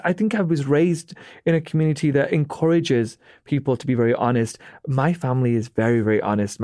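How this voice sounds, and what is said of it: British accent. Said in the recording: “A Brit can say something like ... He's British ... it's just my accent that they're falling for”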